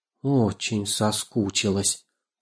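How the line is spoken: Grandmother muttering. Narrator (Russian): пробормотала бабушка Нина

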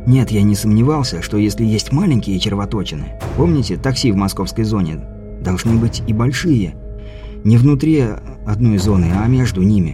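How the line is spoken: Mumbled. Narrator (Russian): пробормотал Каспер

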